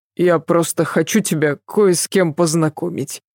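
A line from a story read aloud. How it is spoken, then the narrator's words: Pained mutter. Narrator (Russian): мучительно пробормотал Адам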